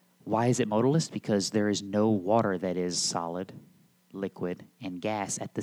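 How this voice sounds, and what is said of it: Usual voice. Nothing is said of it.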